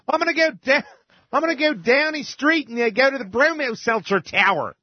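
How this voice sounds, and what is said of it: Put-on Baltimore accent. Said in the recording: “a brother with a real Baltimore accent”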